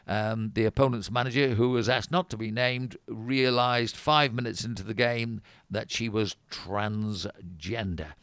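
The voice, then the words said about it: Good South Yorkshire accent. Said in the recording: “you do a very good South Yorkshire accent.”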